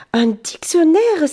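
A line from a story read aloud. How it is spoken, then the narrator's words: Indignant exclamation. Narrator (French): s'écrie indigné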